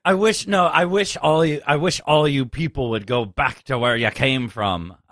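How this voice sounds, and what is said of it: Put-on Irish accent. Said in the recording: “I don't know why I'm doing an Irish accent.”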